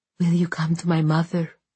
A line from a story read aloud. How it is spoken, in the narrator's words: she whispered